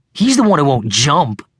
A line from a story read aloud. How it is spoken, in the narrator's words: Hayden said sulkily, like a kid whose favorite toy had just been confiscated